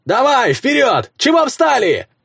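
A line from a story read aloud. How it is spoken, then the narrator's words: Shout from the fog. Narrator (Russian): заорал кто-то из тумана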